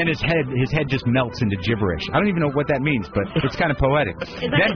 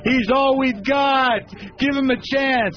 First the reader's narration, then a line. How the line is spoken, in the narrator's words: McCain screams